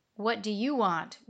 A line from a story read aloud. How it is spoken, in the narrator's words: growled Ciro